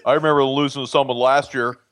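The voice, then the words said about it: Mocking imitation of Ohio State fans. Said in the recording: “Do that voice. Do that voice again. That's pretty good. ... That's what you people sound like.”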